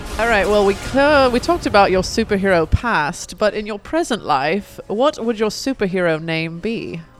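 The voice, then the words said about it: Put-on British accent. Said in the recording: “she will do it in her British accent for us today ... let's do it in British accent.”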